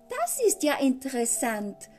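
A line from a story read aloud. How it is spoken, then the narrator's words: Exclaiming. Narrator (German): rief aus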